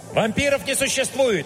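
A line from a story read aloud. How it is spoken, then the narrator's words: Barked. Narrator (Russian): рявкнул я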